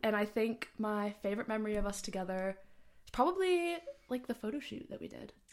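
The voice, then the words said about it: American accent. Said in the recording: “I'm from America, if you probably tell by the accent.”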